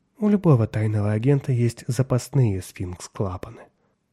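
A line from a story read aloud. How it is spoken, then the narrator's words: Soft. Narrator (Russian): мягко сказала Мэйвис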